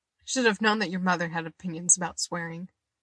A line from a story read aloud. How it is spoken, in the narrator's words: Eddie laughed